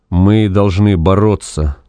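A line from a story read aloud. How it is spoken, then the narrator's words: Even, level voice. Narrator (Russian): ровным голосом произнес Вепрь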